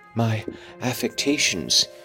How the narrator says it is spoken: he murmured

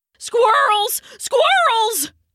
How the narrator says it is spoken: barked

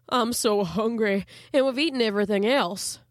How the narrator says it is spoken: he replied mournfully

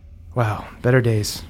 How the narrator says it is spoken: she sighs and she goes

